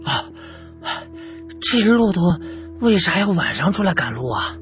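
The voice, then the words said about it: Quiet, hushed speech. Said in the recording (Chinese): “小声的说”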